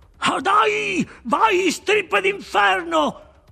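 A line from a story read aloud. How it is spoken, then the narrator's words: Yell. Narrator (Italian): urlò Webster Show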